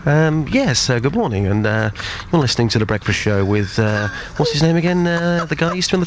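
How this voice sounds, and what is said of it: Put-on posh English accent. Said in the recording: “can you do a posh voice? ... Posh”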